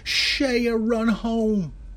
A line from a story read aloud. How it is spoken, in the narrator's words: the boys from both teams ran behind him, screaming